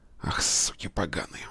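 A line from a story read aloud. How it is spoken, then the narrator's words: Hoarse rasp. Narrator (Russian): прохрипел Петр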